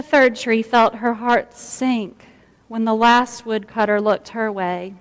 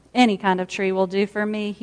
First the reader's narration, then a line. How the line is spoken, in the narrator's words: he muttered